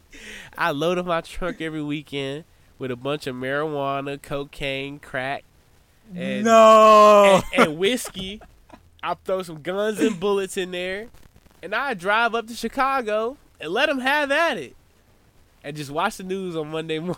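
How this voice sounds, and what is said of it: Imitated country accent. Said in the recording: “this is how exactly how I talk, bro. He had the country accent.”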